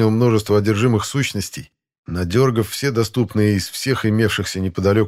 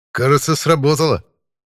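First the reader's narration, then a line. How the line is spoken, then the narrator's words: Snorting chuckle. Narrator (Russian): хмыкнул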